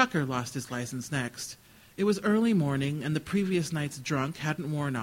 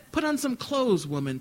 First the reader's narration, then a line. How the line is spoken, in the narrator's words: Tucker shouted from inside the truck